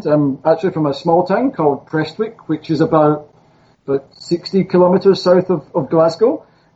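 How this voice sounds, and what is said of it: Scottish accent. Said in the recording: “I don't know if you can still tell from my accent. I'm from Scotland.”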